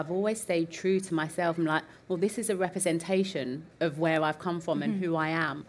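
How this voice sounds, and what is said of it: East End London accent. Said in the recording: “I'm from the East End of London ... my accent”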